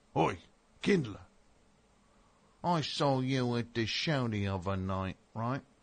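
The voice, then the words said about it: Bad, mixed British accent. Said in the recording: “I'm all over the map with that accent. I think I covered all of the United Kingdom with that one ... I'm making myself sick with how bad that is.”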